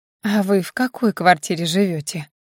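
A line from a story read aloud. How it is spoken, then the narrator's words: Deceptively gentle question. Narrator (Russian): Обманчиво ласково спрашивает его мать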